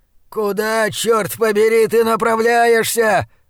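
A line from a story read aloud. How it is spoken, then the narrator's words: Howling yell from behind. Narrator (Russian): взвыл позади меня Блад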